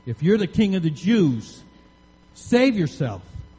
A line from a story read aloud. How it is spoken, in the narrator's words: they called out to him